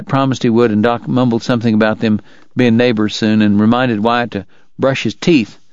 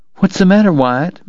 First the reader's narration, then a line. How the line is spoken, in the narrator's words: asked anxiously